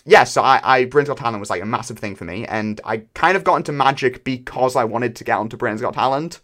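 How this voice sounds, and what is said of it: British accent. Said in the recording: “I don't know if you've been able to tell from my accent and mentioning Britain's Got Talent, but I am British ... I don't know why your accent didn't give it away”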